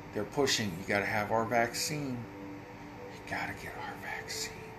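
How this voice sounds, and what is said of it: Whispering. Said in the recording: “I'm whispering like Joe Biden”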